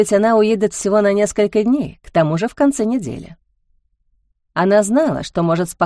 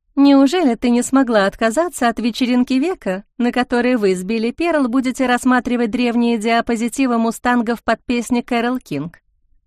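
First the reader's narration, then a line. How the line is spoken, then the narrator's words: Mocking question. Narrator (Russian): Насмешливо спросила Лили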